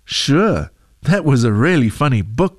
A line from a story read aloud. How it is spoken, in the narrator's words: she said